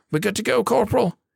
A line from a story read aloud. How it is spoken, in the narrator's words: he cried